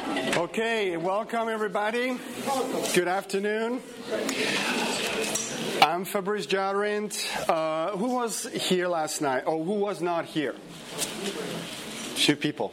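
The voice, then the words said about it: French accent in English. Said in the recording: “I have an accent because my native language is French”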